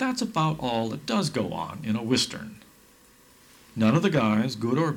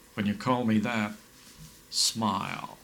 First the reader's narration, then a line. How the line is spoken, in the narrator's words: The good guy dangerously drawls back